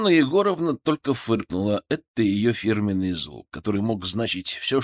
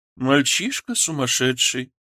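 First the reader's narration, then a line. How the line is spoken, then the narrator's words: Grumbled. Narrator (Russian): проворчала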